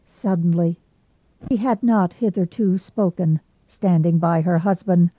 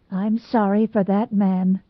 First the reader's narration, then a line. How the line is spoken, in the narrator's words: said Mrs